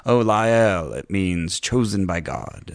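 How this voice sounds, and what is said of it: Soft, proper, well-pronounced accent. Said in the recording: “Don't take my accent to be exact, because it'll probably change throughout the recording... But, but it's very soft. It's very... proper... Yes, well pronounced.”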